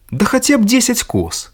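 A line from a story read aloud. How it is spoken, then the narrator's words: Young man exclaiming. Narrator (Belarusian): усклікнуў юнак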